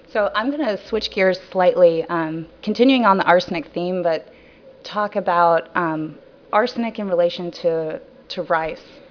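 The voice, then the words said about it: Lower-pitched voice from a cold. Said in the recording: “my voice is usually much higher pitched than right now ... I'm just suffering from a little bit of a cold”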